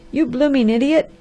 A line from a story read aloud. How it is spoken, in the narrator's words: cried the angry expressman